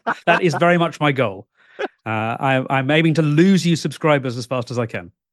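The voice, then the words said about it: British accent. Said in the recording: “From across the pond ... you've already got the accent.”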